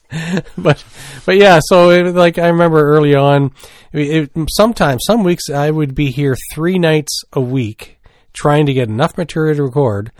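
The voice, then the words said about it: Canadian Maritimes accent. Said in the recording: “I can hear my Maritimes accent when I listen to myself”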